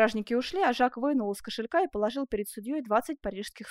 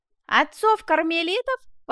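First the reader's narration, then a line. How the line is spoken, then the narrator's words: Exclaiming. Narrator (Russian): воскликнул Жак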